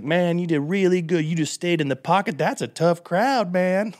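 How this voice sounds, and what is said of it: Impression of Ron Funches. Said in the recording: “that's a really good impression.”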